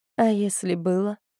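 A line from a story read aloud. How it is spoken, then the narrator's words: Quiet question. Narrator (Russian): тихо спросила Атия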